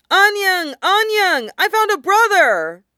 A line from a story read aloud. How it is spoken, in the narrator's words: her little Wei Wuxian ran over to her, shouting